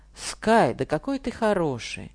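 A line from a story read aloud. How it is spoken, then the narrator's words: Joyful motherly shout. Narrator (Russian): мама радостно кричала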